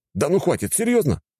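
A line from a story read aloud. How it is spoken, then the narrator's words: Exclamation. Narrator (Russian): воскликнул я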